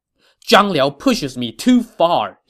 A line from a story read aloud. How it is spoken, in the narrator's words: he said angrily